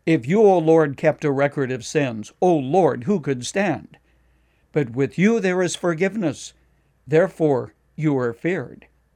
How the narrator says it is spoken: David cried out

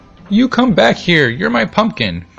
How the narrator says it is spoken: cried Antone

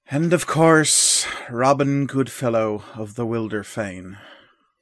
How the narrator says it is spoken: with an aggravated sigh, the old mage will say

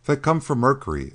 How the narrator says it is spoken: exclaimed Jim in surprise

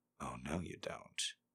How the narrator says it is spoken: Harry purred in her ear

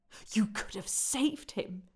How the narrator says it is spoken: spat

